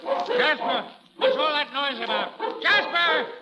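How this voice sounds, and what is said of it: Yelling loudly. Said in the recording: “stop yelling?”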